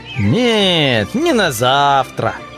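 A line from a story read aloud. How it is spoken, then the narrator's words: Thoughtful repetition. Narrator (Russian): повторил рыцарь все так же задумчиво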